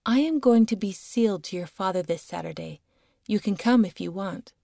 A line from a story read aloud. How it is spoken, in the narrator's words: she calmly said